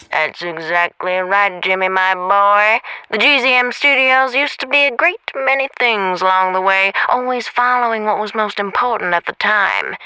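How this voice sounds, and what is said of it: Old film detective voice. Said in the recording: “why do you sound like an old film detective?”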